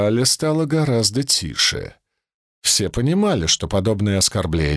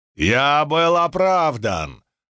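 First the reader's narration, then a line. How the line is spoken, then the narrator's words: Roaring. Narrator (Russian): взревел Кателина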